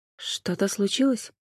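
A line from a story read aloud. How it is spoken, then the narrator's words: Quiet question. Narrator (Russian): тихо спросила Джен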